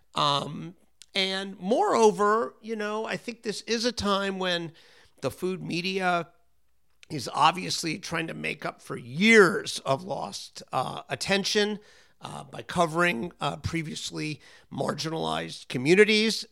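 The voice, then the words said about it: Impaired, strained voice. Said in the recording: “Excuse my voice, by the way. I had a terrible allergy attack when I was in Philadelphia, and it left me with this souvenir.”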